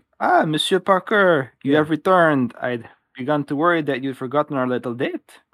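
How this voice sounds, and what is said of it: Fake French accent. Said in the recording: “I just picture it in French ... She's in a fake accent.”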